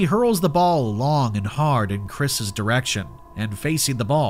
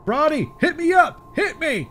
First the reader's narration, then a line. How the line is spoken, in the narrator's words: shouting